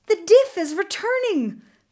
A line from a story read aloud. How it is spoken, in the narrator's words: Beautiful of the Earth cried